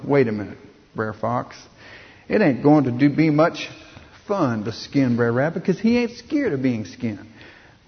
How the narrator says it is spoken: Brer Bear sort of grumbled

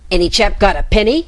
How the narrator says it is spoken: snapped the Rat

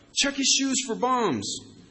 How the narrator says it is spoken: shouted out

